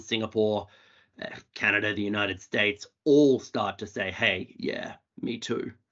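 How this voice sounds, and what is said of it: Australian accent. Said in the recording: “my Australian accent ... The Australian accent's very welcome and very engaging.”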